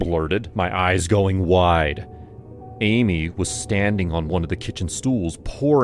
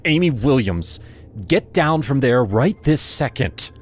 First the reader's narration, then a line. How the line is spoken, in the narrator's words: I shouted, struggling to stay calm